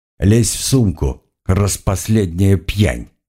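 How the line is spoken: Sighing command. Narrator (Russian): со вздохом приказал я

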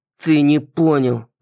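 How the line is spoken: Through gritted teeth. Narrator (Russian): процедил Рон

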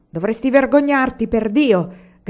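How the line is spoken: Peasant shouting. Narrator (Italian): gridava il contadino

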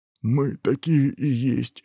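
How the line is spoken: Sobbing ogre. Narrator (Russian): всхлипнул людоед

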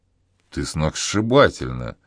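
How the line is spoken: Breathless exhale. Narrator (Russian): выдохнул Игорь

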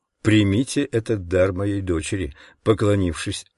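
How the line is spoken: Plain. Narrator (Russian): сказал хозяин

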